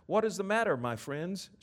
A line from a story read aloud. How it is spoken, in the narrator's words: asked kindly